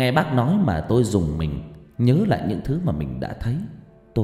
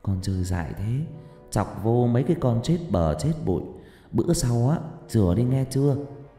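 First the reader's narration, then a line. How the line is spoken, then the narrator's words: Aunt's soft murmur. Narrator (Vietnamese): Bác gái vẫn ôm tôi thủ thỉ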